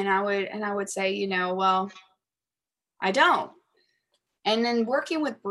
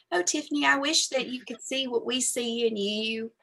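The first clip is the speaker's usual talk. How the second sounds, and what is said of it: Imitating her mother's voice. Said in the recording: “my mom ... I'm going to do your voice.”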